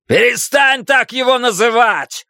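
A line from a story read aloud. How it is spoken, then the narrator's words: Yelling. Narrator (Russian): заорал Большой Джим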